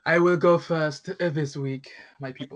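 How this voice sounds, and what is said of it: Put-on Russian villain accent. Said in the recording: “You sound like a Russian bun villain. ... It sounds like sort of Dracula at the same time.”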